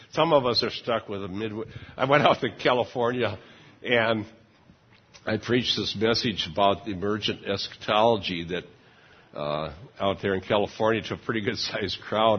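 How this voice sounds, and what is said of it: American Midwest accent. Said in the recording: “my Midwest accent. ... you sure got an interesting Midwest accent. ... You grew up in Iowa and you're stuck with it.”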